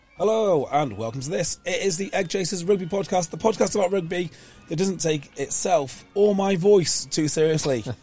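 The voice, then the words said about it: Hoarse voice. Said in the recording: “Wow, I am hoarse today.”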